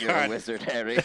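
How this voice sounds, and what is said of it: Put-on British accent. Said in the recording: “Do your British accent for us now. ... whenever he does any accent, he just pulls a Hermione Granger quote.”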